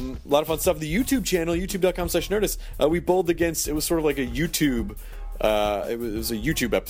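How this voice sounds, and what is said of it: Usual voice. Nothing is said of it.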